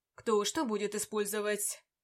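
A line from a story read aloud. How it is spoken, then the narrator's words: Snorting. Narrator (Russian): Вампир хмыкнул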